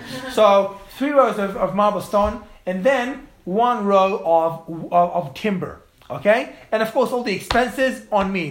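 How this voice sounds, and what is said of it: Australian accent. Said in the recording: “it's the Australian accent.”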